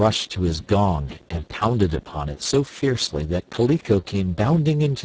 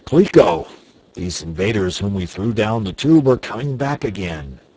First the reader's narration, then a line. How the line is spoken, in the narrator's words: he exclaimed